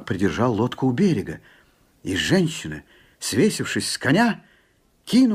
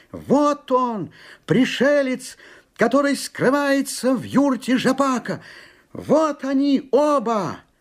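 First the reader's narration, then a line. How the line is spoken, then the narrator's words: Boy shouting nonstop. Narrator (Russian): Парнишка, не умолкая, кричал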